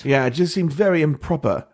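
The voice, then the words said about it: Poor attempt at British accent. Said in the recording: “that was a weird, horrible attempt at a British accent.”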